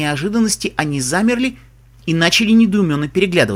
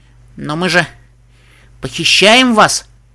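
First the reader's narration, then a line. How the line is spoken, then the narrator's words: Uncertain young foal. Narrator (Russian): Неуверенно сказал один из жеребят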